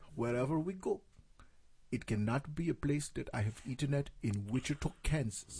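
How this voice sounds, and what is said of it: Imitated Cameroonian accent. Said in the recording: “I can do her accent perfectly ... that's where I got my Mandela accent from ... She's from Cameroon.”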